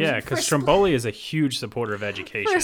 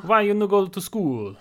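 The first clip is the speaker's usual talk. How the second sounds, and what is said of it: Put-on Italian accent. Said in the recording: “I was going to try and do an Italian accent.”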